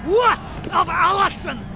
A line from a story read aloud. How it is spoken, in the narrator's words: cried the chief of the Camerons